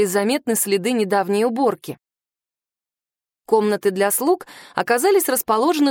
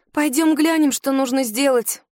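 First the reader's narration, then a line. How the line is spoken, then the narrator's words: Sighing. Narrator (Russian): вздохнула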